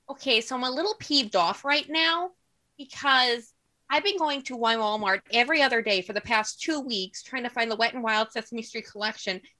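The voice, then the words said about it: Heavy Northern Wisconsin accent. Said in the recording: “a really heavy Northern Wisconsin accent”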